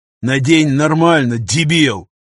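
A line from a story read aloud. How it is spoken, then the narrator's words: Growl. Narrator (Russian): рыкнул пограничник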